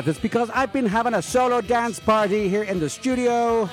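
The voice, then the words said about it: Slightly out of breath. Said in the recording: “I sound a little out of breath”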